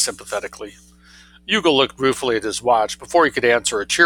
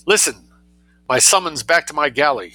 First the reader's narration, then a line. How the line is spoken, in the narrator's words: he cried